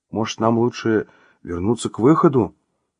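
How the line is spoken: Timid question. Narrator (Russian): робко спросил стажер

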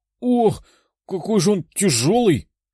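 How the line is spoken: Strained wheeze. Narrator (Russian): прохрипел Террит, поднимая рыцаря за плечи

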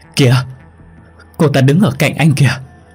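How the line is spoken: Screaming. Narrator (Vietnamese): Chi còn hét lên

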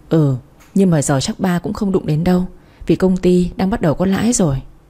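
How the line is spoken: Sighing. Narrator (Vietnamese): Ba tôi nghe vậy thở dài gật đầu nói

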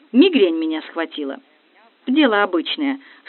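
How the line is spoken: Calm telling. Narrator (Russian): спокойно рассказывала капельдинерша

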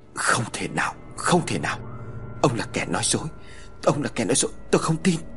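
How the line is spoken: Stammering in shock. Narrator (Vietnamese): gục hẳn xuống miệng lắp bắp

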